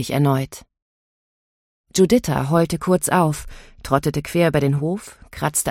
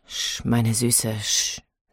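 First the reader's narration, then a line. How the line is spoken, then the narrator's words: Plain. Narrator (German): sagte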